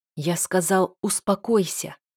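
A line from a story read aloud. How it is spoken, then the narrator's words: Hissed in face. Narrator (Russian): прошипел он мне в лицо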